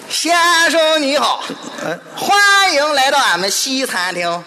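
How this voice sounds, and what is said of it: Strong regional countryside accent. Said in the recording (Chinese): “我一听你这口音我就想吃驴肉火烧”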